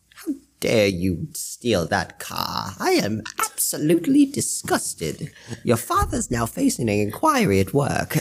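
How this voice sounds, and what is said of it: Put-on British accent. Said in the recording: “Every time the British accent is brought up, the Harry Potter quickly follows.”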